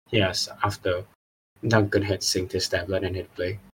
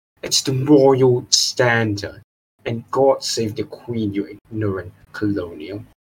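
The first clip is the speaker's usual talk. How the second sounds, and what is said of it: Exaggerated British accent. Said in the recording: “accent had somehow gotten even more British”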